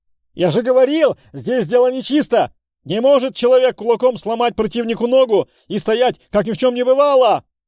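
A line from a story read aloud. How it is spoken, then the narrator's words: Yelling. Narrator (Russian): Орал за сеткой Джиггерс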